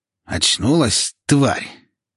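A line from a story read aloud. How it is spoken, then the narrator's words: Hoarse, fake-sounding male. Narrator (Russian): Его голос оказался хриплым и каким-то наигранным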